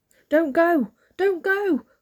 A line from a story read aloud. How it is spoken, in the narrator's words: cried the seagulls